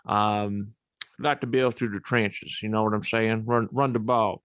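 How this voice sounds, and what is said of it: Put-on southern hillbilly accent. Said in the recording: “His southern, you know, just hillbilly accent.”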